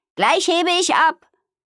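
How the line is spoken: Calling out. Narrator (German): rief Amalia

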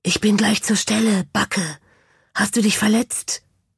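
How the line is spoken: Whispered. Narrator (German): flüsterte es

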